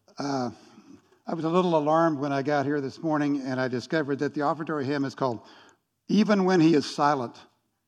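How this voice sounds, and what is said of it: Scratchy, hoarse voice. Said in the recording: “my voice is a little scratchy this morning ... some kind of respiratory thing”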